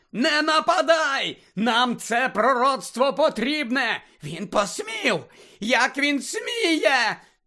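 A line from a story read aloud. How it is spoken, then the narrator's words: Obsessive shrieking. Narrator (Ukrainian): нав'язливо верещала Белатриса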